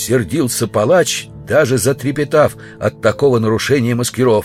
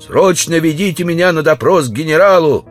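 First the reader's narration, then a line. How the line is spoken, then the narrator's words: Shouted. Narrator (Russian): Он закричал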